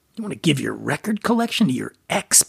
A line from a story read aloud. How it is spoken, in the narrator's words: Brian sputtered, incredulous